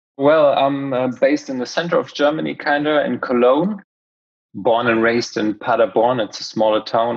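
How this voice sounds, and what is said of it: Slight German accent. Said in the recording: “you've name dropped a country, Germany. We can hear you've got a bit of an accent”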